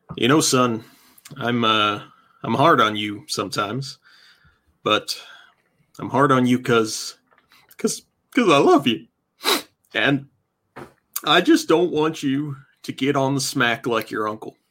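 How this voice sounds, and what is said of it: Stern fatherly dad voice. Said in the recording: “in your daddest voice?”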